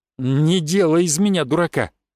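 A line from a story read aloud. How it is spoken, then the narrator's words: Distrustful grumble. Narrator (Russian): недоверчиво пробурчал друг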